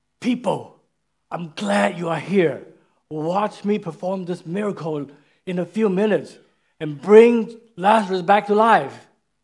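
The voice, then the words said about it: Excited, enthusiastic announcing voice. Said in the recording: “in an exciting voice”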